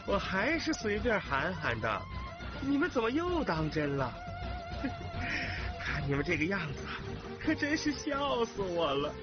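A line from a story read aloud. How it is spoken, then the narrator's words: Mocking. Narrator (Chinese): 他嘲笑这些人说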